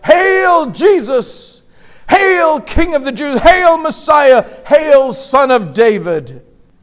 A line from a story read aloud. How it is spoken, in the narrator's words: they cried out